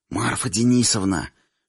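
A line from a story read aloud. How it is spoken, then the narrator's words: Whisper in the ear. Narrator (Russian): шепнул мне на ухо Ираклий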